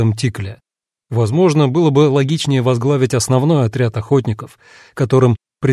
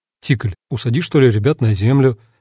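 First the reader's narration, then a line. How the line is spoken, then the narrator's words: Slightly confused suggestion. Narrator (Russian): немного растерянно предложил я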